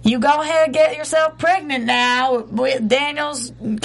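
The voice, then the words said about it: Put-on Southern accent drifting. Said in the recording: “it's quickly changing from Southern to, like, hood. ... I do a real good Southern accent, don't I?”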